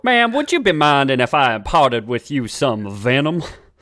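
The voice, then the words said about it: Texan accent as Quickstrike. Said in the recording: “This one has a real Texan accent. The voice actor for Quickstrike”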